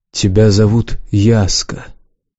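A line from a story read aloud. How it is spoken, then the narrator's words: Quiet. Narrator (Russian): тихо проговорил Лукс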